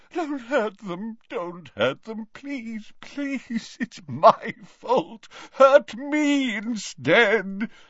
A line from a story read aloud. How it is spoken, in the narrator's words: he moaned